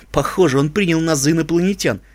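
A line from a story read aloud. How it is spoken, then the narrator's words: Snorting. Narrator (Russian): фыркнула искорка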